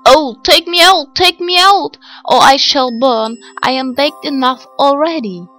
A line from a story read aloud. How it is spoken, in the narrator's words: the bread called out to her